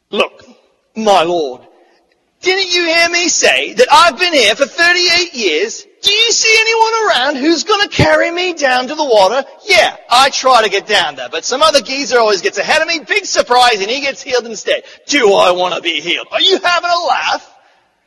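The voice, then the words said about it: Put-on British accent. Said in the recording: “complete with a British accent.”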